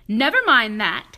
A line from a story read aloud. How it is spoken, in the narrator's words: snapped Miss Swamp